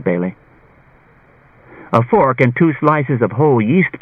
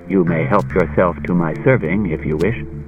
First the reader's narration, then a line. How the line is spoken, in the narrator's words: Daniil said in a low voice